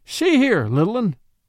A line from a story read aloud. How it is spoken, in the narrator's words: said brokenly